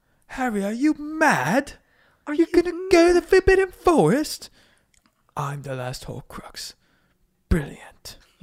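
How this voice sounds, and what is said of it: Put-on British accent. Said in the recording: “If it's fantasy, you go British ... in that accent”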